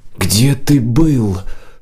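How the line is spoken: Whispered shout. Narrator (Russian): шепотом выкрикнула Нила

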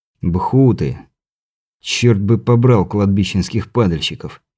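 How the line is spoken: Grumbled under his breath. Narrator (Russian): пробурчал я себе под нос

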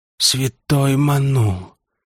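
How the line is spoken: Whispered. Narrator (Russian): прошептал кот

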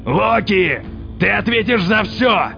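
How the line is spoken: Thundering voice. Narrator (Russian): прогремел Один

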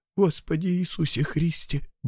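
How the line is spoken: Muttering. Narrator (Russian): бормочет Мишка

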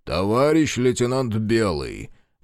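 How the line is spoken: Loud interruption. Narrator (Russian): громко прервал его начальник

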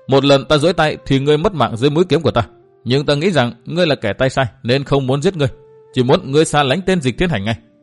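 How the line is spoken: Bursting out laughing. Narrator (Vietnamese): Nguyên Bình bật cười

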